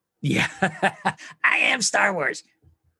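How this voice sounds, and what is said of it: Bad cartoon character impression. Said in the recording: “my bad whatever dude from Simpsons impersonation ... That's how bad my impersonation was.”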